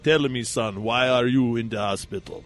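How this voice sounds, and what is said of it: Thick put-on African accent. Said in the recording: “in a thick, thick, thick, thick African accent”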